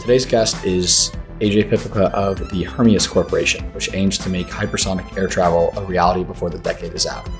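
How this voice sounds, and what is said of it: Slightly raspy, sore-throated voice. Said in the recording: “with the slightest of sore throats and raspy voices”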